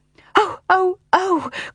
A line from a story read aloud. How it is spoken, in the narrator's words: cried Jane as she gasped for breath